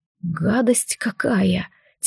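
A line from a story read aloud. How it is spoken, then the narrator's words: Quiet muttering. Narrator (Russian): Тихо пробормотал Алистар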